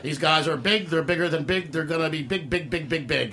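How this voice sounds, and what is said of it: Imitates another person's voice. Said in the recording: “I was planning to do the whole show in my Joe Franklin voice.”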